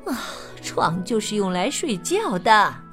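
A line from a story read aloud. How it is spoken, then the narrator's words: Sleepy mother's mumble. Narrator (Chinese): 老鼠妈妈 困得眼睛都睁不开了 小声嘟囔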